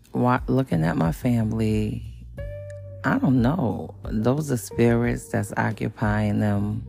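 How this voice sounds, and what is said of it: Groggy just-woke-up voice. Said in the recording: “hear the difference in my voice that I just got up”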